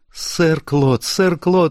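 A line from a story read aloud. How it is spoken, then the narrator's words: Sudden shout. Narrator (Russian): неожиданно закричала Люсия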